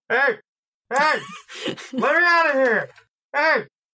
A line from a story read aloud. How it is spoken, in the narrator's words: Noah just starts yelling